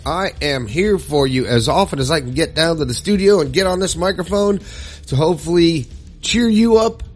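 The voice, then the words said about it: Voice altered by a cold. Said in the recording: “my voice sounds a little different because I'm just now getting over 104 fever and a cold”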